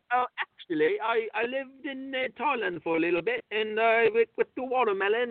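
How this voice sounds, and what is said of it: Poor put-on English accent. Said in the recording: “That was my poor attempt at an English accent.”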